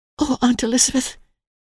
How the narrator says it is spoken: said Emily, breathlessly

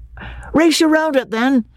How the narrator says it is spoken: cried Freddy

